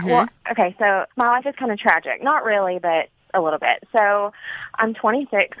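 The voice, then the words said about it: Cute regional accent. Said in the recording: “You have a cute accent. ... Cutest accent. ... Yeah, girl, you have one. ... It's adorable.”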